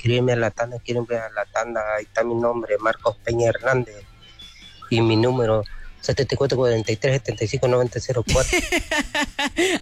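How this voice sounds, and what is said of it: Radio announcer-style voice. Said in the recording (Spanish): “con voz de locutor ya le hizo y todo acá este gallo”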